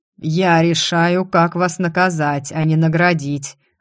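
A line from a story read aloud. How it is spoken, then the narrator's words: Growled. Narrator (Russian): рыкнул император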